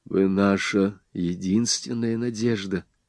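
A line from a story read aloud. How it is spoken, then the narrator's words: Suddenly low voice. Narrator (Russian): сказал внезапно низким голосом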